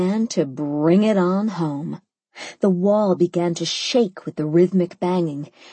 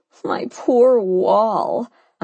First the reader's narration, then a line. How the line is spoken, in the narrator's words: I wailed